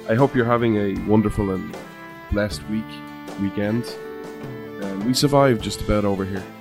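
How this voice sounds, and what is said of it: Irish accent. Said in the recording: “This Irish man ... where you come for the accent”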